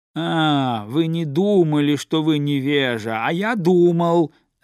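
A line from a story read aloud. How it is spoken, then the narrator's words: Gentleman shouting. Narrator (Russian): закричал господин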